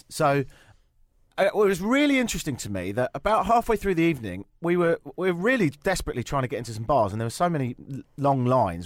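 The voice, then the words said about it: Strong English accent. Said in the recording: “visiting from England ... he has a very strong accent, just like you ... So we both sound a bit like this”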